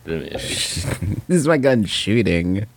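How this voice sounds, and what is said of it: Imitates another person's voice. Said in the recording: “my Charlie Sheen impression,”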